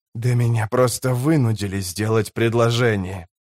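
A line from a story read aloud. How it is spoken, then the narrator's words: Hissing. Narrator (Russian): прошипел Сильгар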